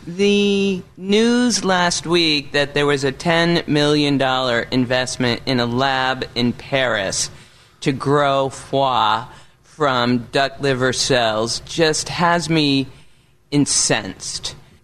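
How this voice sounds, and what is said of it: New England accent. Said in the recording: “my New England accent”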